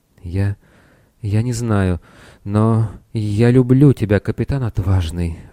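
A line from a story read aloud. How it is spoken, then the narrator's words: Heavy sighing woman. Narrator (Russian): она тяжело вздохнула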